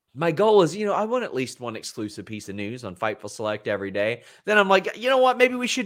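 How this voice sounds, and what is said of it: Usual voice. Nothing is said of it.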